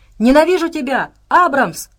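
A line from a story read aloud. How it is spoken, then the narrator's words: Repeated shouting. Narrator (Russian): успела выкрикнуть несколько раз Саша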